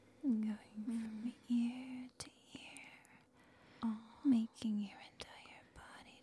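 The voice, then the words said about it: Whispering. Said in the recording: “whispering ... Whispers in your ears”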